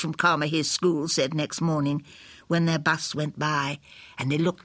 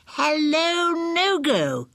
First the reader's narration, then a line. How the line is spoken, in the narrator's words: everybody cried